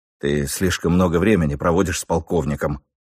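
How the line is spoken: Gruff mutter. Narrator (Russian): буркнул я

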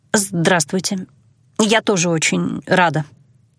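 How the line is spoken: Mumbled. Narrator (Russian): пробормотала я

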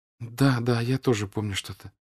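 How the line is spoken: Timid reply. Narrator (Russian): робко отвечала Соня

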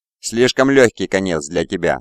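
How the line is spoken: Plain. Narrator (Russian): сказал Локин

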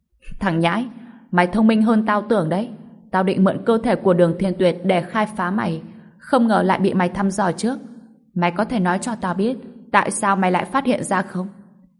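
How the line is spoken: Burst of laughter. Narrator (Vietnamese): Ông ta cười phá lên

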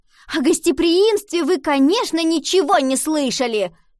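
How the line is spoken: Shouted. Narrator (Russian): крикнула

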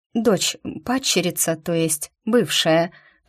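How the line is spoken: Mutter. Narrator (Russian): пробормотала я

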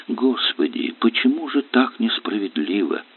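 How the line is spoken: Desperate, agitated, muffled whisper. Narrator (Russian): С горячей безысходностью шептала она, уткнувшись лицом в плечо мужа и от волнения путая русские и немецкие слова

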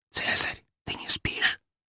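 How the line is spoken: Loud carrying whisper. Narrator (Russian): прошептала она чуть ли не на весь корабль

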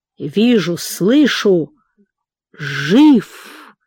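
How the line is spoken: Hoarse rasping. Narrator (Russian): хрипел шаман

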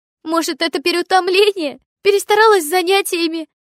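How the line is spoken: Words broken by sobs. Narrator (Russian): Вырывалась у нее между всхлипываниями

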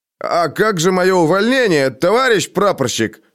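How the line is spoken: Brazen shout. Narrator (Russian): выкрикнул, набравшись наглости, Алёша

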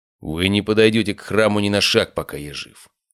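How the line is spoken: Calm, steely. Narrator (Russian): сказал он спокойно, в его голосе прозвучали стальные нотки

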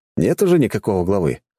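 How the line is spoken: Snorting. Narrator (Russian): хмыкнул

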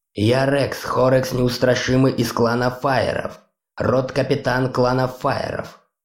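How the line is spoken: Menacing. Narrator (Russian): грозно произнес он

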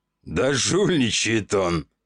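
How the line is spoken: Laughing. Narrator (Russian): Рассмеялся пухлый

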